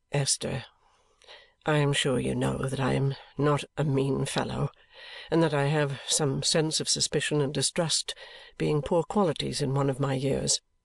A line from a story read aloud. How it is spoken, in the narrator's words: replied in a subdued voice